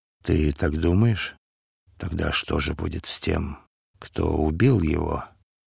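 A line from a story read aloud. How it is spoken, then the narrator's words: Frightened whisper. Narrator (Russian): Варавва испуганно прошептал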